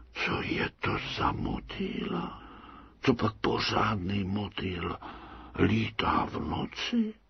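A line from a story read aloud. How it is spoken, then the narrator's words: Moths whispering. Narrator (Czech): můry zašeptali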